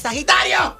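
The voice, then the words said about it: Shouting. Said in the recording (Spanish): “¿Pero por qué gritas?”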